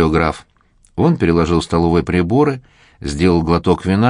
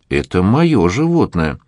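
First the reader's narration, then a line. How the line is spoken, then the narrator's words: Indignant exclamation. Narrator (Russian): с негодованием воскликнул Ростов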